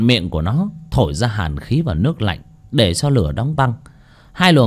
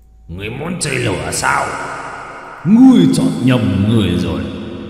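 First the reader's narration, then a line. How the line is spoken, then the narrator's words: Roaring. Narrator (Vietnamese): Dao long gầm lên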